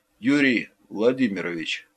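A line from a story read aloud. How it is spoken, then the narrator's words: Quiet frightened addition. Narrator (Russian): И, видимо, совсем уж с перепугу, тихо добавил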